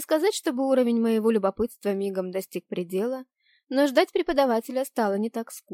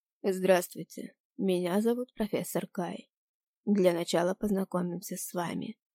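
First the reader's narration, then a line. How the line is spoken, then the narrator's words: Teacher, restrained tone. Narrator (Russian): сдержанным тоном произнес преподаватель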